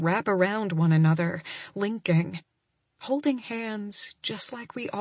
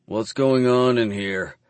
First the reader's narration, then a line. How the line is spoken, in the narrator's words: Clive growls